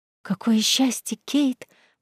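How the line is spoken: Excited whisper from friend. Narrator (Russian): взволнованно прошептала подруга

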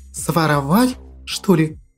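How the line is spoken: Almost whispering. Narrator (Russian): Почти шепотом произнесла она

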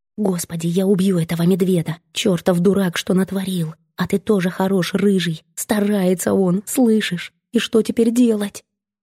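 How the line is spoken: Sighing whisper. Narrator (Russian): Шепот Коломбины больше похож на вздох

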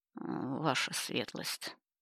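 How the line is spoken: Through clenched teeth. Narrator (Russian): сквозь зубы произнес он

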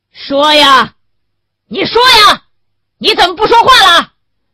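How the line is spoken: Yelling. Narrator (Chinese): 袁干事又吼了起来

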